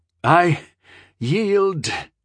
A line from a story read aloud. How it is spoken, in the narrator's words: groaned the young scion of pirates weakly